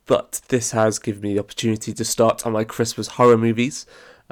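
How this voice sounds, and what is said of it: Sick, congested voice from a cold. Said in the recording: “As you might or might not be able to hear from my voice, as it is winter, of course, I am not well, and I have quite a bit of cold”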